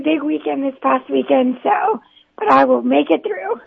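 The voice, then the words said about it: Slightly raspy voice. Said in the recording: “is your voice okay? ... it's a little raspy.”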